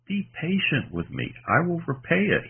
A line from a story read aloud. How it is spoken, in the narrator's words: he pleaded